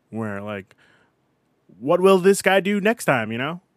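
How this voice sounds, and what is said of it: Cheesy old-time radio voice. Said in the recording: “that's a horrible radio voice.”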